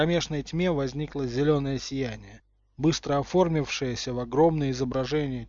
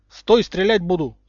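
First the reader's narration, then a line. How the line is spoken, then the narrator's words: Shout. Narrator (Russian): крикнул Гарри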